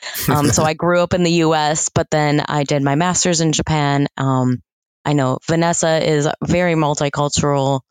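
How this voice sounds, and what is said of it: American accent. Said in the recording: “if you can't tell from my accent, am American”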